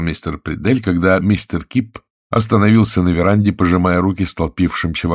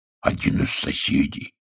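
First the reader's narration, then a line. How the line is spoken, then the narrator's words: Hoarse rasp. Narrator (Russian): прохрипел Гюс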